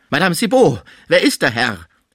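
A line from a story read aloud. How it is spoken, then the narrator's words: Shuddering call. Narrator (German): rief er, beim Anblick des regungslosen Frisier von einem Schauer ergriffen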